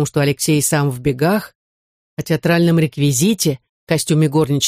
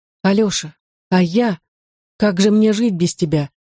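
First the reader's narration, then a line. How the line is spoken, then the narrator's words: Lifeless voice. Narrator (Russian): спросила Софья мёртвым голосом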